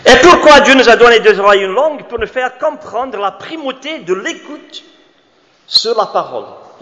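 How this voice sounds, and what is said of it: Foreign accent in French. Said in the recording (French): “nous les étrangers ... j'ai même pris des cours de diction quand j'étais à Emmaüs pour perdre mon accent ... j'ai arrêté les cours de diction”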